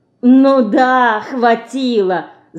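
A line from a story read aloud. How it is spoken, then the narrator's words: Boy laughing. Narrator (Russian): засмеялся мальчик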